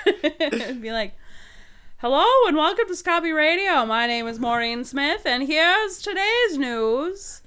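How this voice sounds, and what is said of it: High fluty radio announcer voice. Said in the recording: “my NPR voice would be kind of like the high fluty”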